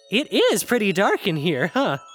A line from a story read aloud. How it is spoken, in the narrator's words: Zavi asked, once more chuckling out his words